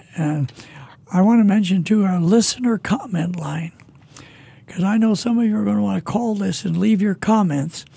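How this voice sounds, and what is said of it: Raggedy, rough voice. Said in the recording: “my voice is kind of raggedy now, but it's better than it was a couple of weeks ago”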